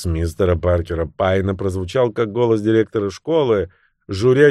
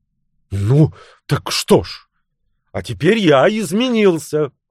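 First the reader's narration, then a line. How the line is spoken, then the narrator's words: Snapping. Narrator (Russian): огрызнулся Клод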